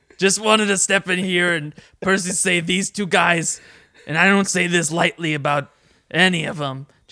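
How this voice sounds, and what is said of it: Imitates another person's voice. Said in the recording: “It's me, Jason Mantzoukas. You can tell because of the way my voice is... Oh, I get it, Jason Mantzoukas.”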